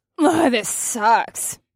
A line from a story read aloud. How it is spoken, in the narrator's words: Nyx said through her teeth